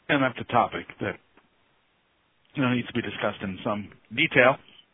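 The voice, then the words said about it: Hoarse, weakening voice. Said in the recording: “losing my voice”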